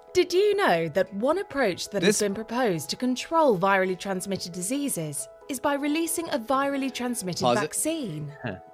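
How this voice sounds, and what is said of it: Over-the-top put-on accent. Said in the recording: “I'm calling bullshit on the accent. ... This is a bullshit accent. ... It's too over the top.”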